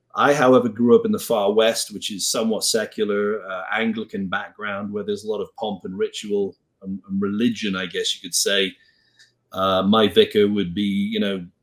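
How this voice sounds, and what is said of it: Welsh accent. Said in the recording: “as you can tell from my funny accent, I come from the UK originally, a place called Wales”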